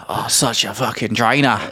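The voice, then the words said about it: Weak put-on Australian accent. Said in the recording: “I need to work on my Australian accent”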